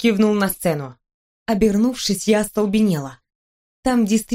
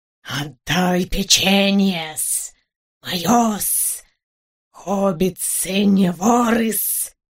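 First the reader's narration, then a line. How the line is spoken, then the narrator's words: Hissing. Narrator (Russian): шипел он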